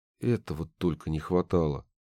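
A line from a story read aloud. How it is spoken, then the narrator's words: Muttered. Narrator (Russian): пробормотал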